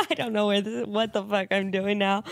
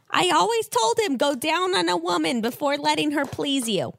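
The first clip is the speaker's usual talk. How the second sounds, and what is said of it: Put-on New Jersey accent. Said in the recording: “I love that you've given her like a jersey accent.”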